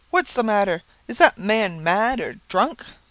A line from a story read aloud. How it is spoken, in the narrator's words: exclaimed several voices